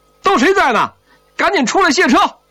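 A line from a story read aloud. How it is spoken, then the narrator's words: Loud hollering. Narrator (Chinese): 宋怀仁 大声吆喝上了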